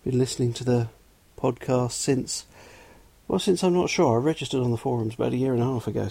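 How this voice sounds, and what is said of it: Southwest London English accent. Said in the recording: “I'm from England, southwest London, so the accent is real. Yes, I really do sound like this.”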